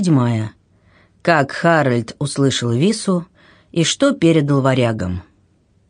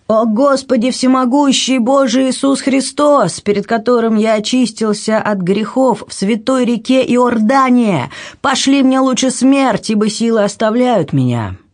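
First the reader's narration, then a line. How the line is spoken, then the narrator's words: Desperate shouting. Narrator (Russian): Он кричал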